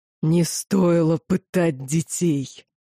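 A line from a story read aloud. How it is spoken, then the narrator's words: Growling. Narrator (Russian): прорычала Лохар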